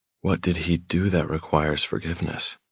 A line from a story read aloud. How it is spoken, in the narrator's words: I whisper